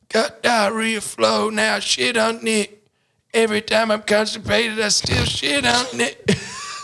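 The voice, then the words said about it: Imitates another person's voice. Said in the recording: “I'll try and do my impression of him”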